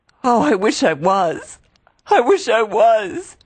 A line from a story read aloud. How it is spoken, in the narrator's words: she sobbed